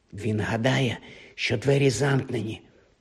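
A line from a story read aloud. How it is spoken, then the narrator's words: Whispered. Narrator (Ukrainian): прошепотів Гаррі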